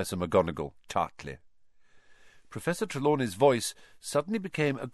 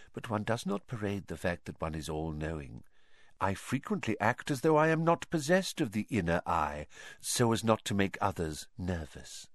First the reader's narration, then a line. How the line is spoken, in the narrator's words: she said quietly